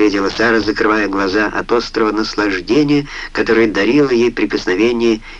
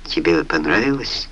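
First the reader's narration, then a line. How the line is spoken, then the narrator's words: Tender question. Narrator (Russian): нежно спросил он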